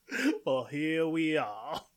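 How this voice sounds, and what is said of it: Slurred put-on southern drawl. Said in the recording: “I guess I'm kind of slurring into sort of a southern drawl.”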